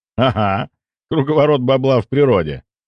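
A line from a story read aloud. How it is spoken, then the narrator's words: Laughing. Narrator (Russian): рассмеялся я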